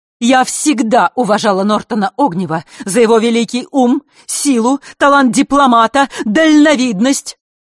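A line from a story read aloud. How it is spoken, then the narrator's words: Loud declaiming. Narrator (Russian): громко вещала Елена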